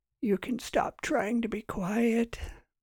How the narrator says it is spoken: Margaret said with a raspy voice

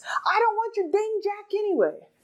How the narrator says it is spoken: the stranded man shouts

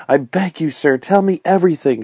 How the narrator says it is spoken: she cried

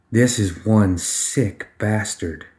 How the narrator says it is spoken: she muttered

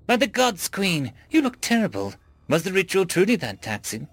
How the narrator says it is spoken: exclaimed Baal Shati, captain of the Royal Guard, worriedly

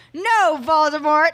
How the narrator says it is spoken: I shouted back

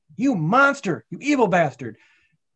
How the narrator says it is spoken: Wick screamed

